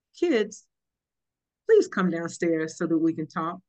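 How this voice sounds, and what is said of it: Sweet wholesome TV-mom character voice. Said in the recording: “in her best June Cleaver voice,”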